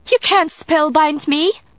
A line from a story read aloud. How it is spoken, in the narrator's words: she cried